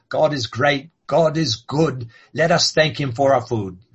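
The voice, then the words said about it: Put-on British accent. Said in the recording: “if you say it with a British accent, there's much more of a rhyme there”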